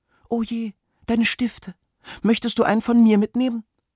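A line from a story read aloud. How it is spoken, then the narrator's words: Squeaky chick's chirp. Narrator (German): piepste das Küken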